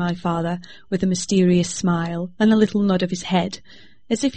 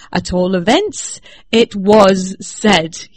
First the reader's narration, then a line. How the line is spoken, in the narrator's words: he laughed